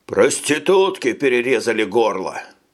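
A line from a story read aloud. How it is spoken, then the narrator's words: Hoarse rasp from shower. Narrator (Russian): прохрипел из душевой генерал Бурн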